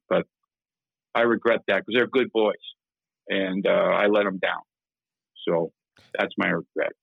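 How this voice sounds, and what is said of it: Emotional, choked-up voice. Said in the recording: “I'm getting emotional here... I'm starting to get emotional.”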